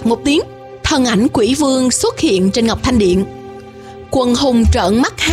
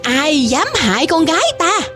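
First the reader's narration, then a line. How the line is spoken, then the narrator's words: Loud shout. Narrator (Vietnamese): một tiếng hét lớn vang đến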